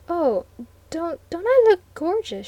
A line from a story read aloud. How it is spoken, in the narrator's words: she stammered